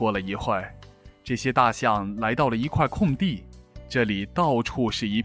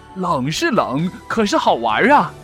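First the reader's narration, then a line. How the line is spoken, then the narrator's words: Hearty laughter. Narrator (Chinese): 另一只象在哈哈大笑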